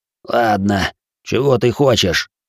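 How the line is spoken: Pained hiss. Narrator (Russian): зашипел он от боли

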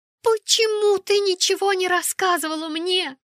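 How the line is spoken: Shouted. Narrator (Russian): закричала она

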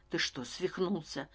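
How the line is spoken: Whisper. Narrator (Russian): прошептал я

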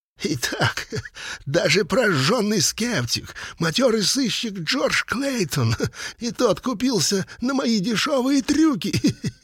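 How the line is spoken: Speaking through laughter. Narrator (Russian): сквозь смех сумел проговорить Леттерп

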